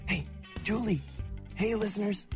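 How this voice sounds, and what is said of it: Whispering. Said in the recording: “why are you whispering? ... I'm whispering because ... I was whispering because it's really fragile. And I was afraid loud noises would ruin the whole thing.”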